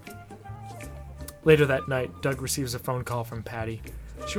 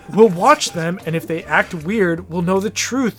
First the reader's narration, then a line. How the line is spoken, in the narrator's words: Judy exclaims